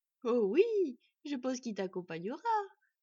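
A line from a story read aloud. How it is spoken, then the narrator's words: Candid, innocent exclamation. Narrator (French): s'exclama Murk avec toute la candeur du monde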